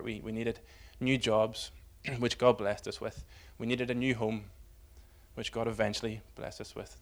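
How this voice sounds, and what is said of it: Northern Irish accent. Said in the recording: “from Glasgow to Belfast ... you can tell by the accent, that was something of a homecoming for me”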